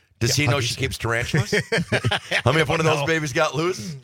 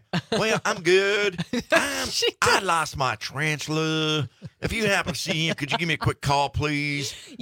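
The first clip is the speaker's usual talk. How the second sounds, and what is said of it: Put-on southern accent. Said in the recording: “that wasn't the greatest little accent ... playing southern guy ... A beloved southern neighbor”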